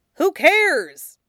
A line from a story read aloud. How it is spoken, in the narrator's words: he snaps back